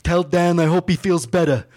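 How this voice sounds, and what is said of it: Imitates another person's voice. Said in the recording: “that's a good impression.”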